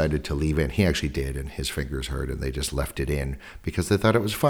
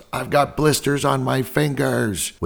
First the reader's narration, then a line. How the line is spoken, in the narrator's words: Ringo shouts